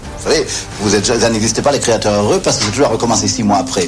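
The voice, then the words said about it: Karl Lagerfeld's distinctive accent. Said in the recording (French): “son accent caractéristique”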